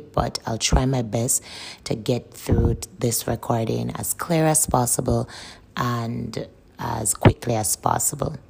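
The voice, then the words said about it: Slightly rough, strained voice. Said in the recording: “the sound of my voice ... I'm having a sore throat today, so my voice is a bit chirpy”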